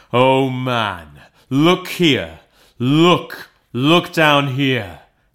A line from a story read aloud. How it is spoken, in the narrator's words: exclaimed the ghost